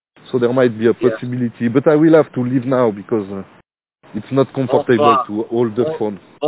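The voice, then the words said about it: Strong French accent in English. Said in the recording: “That's a real French accent. He doesn't get any more French than that.”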